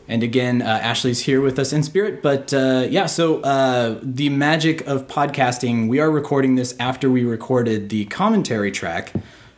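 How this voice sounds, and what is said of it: Slightly hoarse voice. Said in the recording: “all of us sound a little hoarse,”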